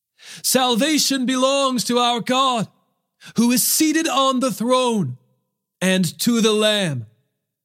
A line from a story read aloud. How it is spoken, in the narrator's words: they cried out in a loud voice